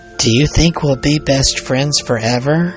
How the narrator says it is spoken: asked Alice

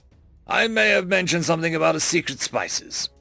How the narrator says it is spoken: he chuckled to himself

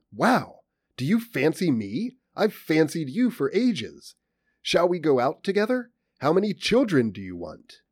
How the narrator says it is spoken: You exclaim

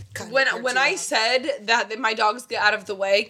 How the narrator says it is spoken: Kisha laughed

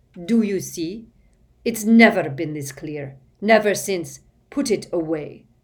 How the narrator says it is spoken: snarled Snape

